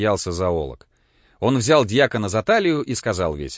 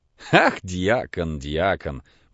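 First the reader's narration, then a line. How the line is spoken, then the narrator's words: Laughing repetition. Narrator (Russian): повторил фон Корон, смеясь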